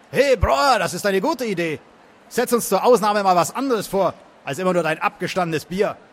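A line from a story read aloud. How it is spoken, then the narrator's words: Man calling out. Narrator (German): einer der Männer rief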